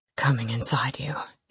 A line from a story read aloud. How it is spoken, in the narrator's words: he grunted